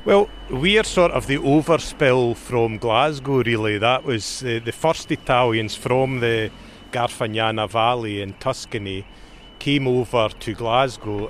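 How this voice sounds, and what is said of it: Scottish accent. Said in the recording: “your accent is unmistakably Scottish”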